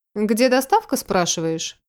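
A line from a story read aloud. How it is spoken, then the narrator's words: Calm inquiry. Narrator (Russian): Спокойно поинтересовался он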